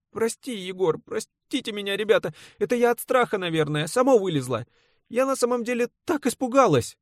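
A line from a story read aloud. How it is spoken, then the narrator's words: Rustling voice, holding back sobs. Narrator (Russian): Шелестит амазонка, явно с трудом удерживаясь от рыданий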